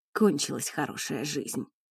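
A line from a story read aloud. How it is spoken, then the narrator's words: Hoarse voice. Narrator (Russian): хрипло проговорил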